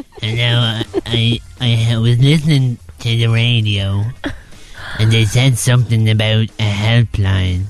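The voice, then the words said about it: Put-on old man voice. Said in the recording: “I'm gonna do my old man voice.”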